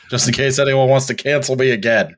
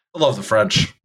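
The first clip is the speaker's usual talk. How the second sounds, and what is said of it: Sarcastic delivery. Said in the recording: “That was sarcasm. That was sarcasm.”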